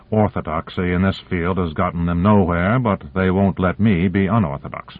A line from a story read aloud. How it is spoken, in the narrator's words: He added bitterly